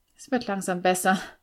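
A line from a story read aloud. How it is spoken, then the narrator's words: Groaning, forced confidence. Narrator (German): stöhnte ich und rang mir ein zuversichtliches Lächeln ab, das leider etwas kläglich ausfiel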